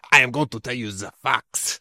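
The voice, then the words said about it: Bad Rafa Benitez accent impression. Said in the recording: “that was a bad accent ... some Rafa Benitez thing”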